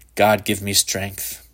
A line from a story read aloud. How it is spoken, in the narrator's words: Shepard said under his breath